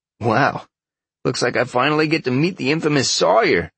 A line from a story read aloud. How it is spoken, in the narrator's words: Chad chuckled